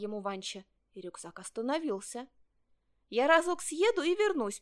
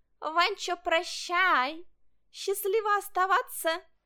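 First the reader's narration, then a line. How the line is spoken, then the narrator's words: Mocking shout. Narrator (Russian): Котенок насмешливо крикнул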